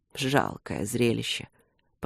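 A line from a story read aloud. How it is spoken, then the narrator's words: Mocking mutter. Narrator (Russian): пробормотал он насмешливо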